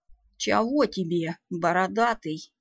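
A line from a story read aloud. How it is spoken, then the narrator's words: Calm interrupting mumble. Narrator (Russian): невозмутимо пробурчал домовичок, вклиниваясь между гномьим выдохом и вдохом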